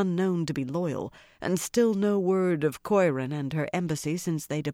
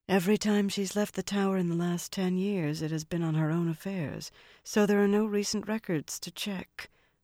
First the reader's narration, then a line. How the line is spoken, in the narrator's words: her companion murmured